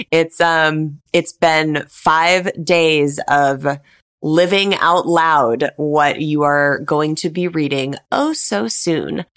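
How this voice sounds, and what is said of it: Tired, strained voice. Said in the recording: “my voice is hurting today, y'all ... my voice is tired”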